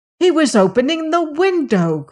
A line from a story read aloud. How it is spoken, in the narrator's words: cried Antony